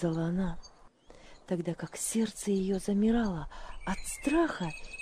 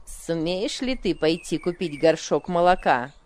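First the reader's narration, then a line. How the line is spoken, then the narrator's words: Rude question. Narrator (Russian): грубо спросила она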